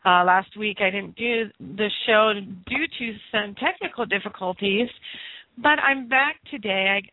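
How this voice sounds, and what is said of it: Raspy, hoarse voice. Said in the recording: “I may sound a little raspy today, but that is because I have been ill for the last week ... a little bit under the weather as far as my voice is concerned”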